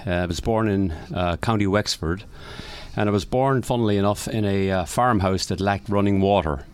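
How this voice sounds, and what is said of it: Irish accent. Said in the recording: “I was born in Ireland, as most likely the accent will already tell you.”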